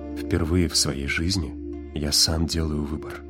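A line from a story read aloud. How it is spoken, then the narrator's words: Quiet. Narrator (Russian): тихо сказал Уит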